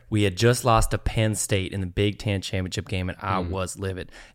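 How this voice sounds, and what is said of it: Put-on country accent. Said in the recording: “a country accent ... oh no, I'm stuck ... I'm going to tell it in this accent because the accent actually kind of fits the story”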